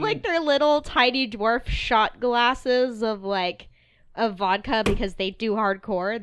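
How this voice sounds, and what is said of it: Usual voice. Nothing is said of it.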